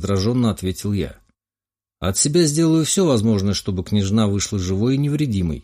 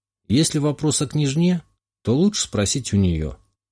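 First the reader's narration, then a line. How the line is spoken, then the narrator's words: Calm answer. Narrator (Russian): спокойно ответил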